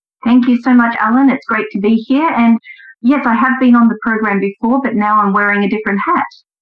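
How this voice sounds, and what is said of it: Noticeable foreign accent. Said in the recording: “I do hear an accent. I'm sure our listeners can as well.”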